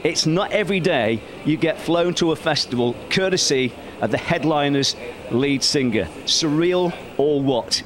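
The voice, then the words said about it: Excited voice. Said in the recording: “As you can tell by my voice,... to say I'm a little bit excited is an understatement”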